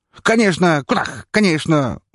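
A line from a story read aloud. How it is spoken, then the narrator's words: Pleased vendor exclaiming. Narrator (Russian): воскликнул довольный продавец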